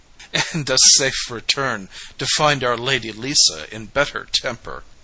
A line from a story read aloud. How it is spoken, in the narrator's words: laughed the other